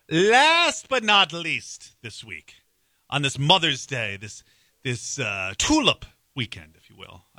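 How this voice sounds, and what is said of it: Pirate-like voice. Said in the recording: “I don't know why I'm talking like a pirate,”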